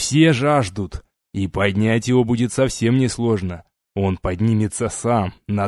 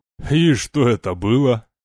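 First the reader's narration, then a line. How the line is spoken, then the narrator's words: Mocking question. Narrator (Russian): насмешливо переспросил капитан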